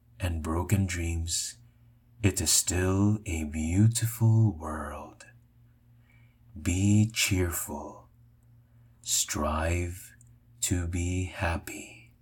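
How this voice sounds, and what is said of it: Soft, low, relaxing voice. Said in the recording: “my bedroom voice”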